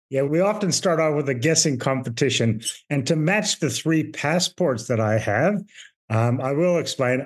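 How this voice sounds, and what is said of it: Mixed Canadian, Irish, Australian accent. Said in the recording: “where your accent is from? Because I've never been able to pick it ... I am Canadian born to Irish parents, and I've been in Australia since I was 12 years old ... going out, which sounds like a Canadian ... my daughter, which is the Irish”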